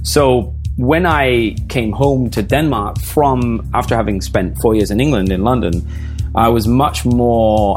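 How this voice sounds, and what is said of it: Slightly English transatlantic accent. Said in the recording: “I still have a little bit of the English, but the R's are rolling a little bit ... the accent is slipping a little bit. It's becoming what I hate, that kind of weird transatlantic kind of Catherine Zeta-Jones, Madonna”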